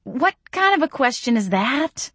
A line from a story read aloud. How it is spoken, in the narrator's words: I gasped